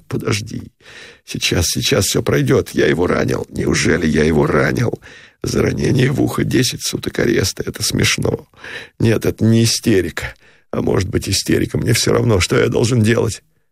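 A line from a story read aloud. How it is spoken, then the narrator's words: Sobbing whisper. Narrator (Russian): Всхлипывающим шепотом сказал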